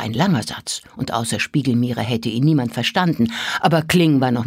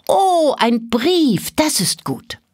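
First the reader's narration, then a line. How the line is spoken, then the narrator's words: Little girl calling out. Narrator (German): rief das kleine Mädchen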